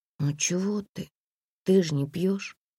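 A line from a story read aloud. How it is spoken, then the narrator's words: Conciliatory whisper. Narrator (Russian): примирительно прошептала Комарова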